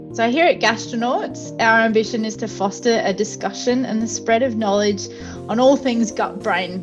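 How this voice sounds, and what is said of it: Australian accent. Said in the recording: “if the accent doesn't give it away, I'm tuning in to you from Adelaide in Australia”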